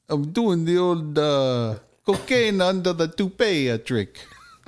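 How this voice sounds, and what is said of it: Poor put-on accent. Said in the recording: “That's totally not a good accent.”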